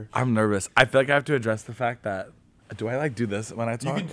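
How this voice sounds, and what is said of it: Deep, congested radio-like voice. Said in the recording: “my allergies are bad, so that's why my voice sounds like this... cool radio voice”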